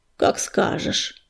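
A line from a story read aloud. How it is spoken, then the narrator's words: Grumbling mutter. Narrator (Russian): буркнул он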